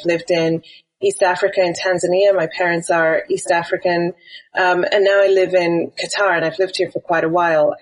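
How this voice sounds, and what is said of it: British accent, not the typical one. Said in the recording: “you can probably tell from my accent, I'm British, but my accent is not quite the same as a lot of British people because I grew up in Wales”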